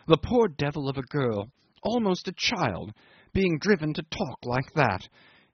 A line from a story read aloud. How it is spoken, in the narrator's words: he exclaimed in horror